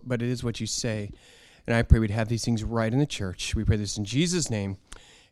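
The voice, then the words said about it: Slightly scratchy voice. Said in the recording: “My voice has been a little scratchy.”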